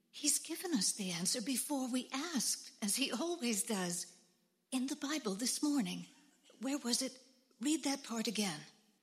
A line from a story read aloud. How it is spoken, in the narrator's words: said excitedly